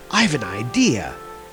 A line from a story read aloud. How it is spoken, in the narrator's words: whispered Fjallar to his brother